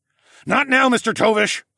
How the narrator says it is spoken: I grunted

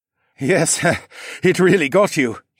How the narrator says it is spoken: he said with a nervous chuckle

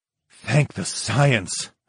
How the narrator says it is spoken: breathed

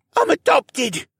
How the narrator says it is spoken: Rylan wheezed out

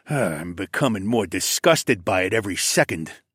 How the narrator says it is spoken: the Alpha grunted

